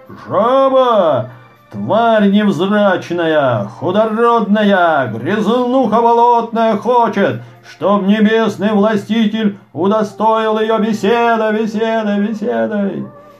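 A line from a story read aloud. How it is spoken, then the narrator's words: Angry, menacing shout. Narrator (Russian): Разгневался небесный властитель, грозно вскрикнул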